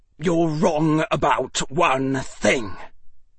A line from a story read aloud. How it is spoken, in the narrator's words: Draco said, his voice deadly